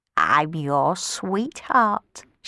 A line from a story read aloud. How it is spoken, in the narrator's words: she croaked